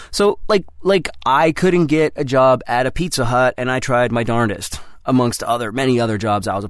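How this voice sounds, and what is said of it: Usual voice. Nothing is said of it.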